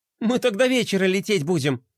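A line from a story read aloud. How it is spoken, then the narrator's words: Wry snort. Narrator (Russian): хмыкнула Глория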